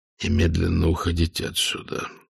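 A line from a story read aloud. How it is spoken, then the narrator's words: Whisper. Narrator (Russian): шепотом сказал Везич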